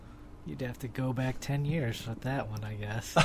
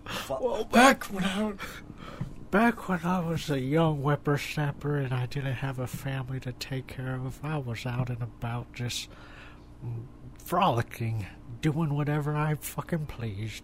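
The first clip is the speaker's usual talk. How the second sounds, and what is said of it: Strange put-on old man voice. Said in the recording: “old man voice. That is a strange voice”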